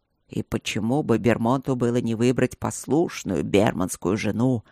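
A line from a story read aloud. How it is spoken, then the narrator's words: Displeased growl. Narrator (Russian): прорычал Ровент недовольно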